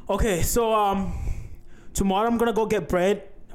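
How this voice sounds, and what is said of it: Attempted Irish accent. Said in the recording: “Should we actually try to do an Irish accent? ... Horrible accents ... get bread in Irish”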